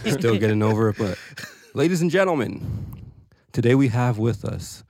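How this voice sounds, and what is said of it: Exaggerated announcer-style intro voice. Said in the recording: “this weird voice? ... It's your intro voice.”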